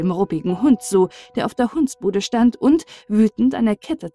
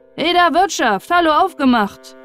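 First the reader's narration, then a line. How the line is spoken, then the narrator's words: Calling out. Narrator (German): rief er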